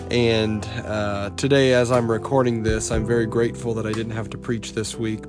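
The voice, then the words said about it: Rough, unwell-sounding voice. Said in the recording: “my voice sounds a little different... my voice is not so great right now”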